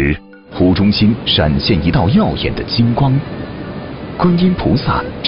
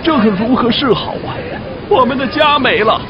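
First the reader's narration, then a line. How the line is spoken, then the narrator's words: Villagers wailing. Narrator (Chinese): 乡亲们都哭闹不止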